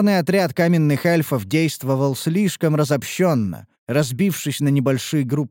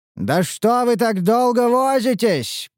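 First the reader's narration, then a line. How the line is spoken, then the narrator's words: Shouted. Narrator (Russian): прокричал Теврин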